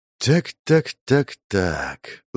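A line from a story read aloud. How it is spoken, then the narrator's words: Woman muttering. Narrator (Russian): забормотала блондинка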